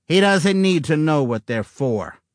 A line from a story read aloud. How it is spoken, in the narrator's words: he snapped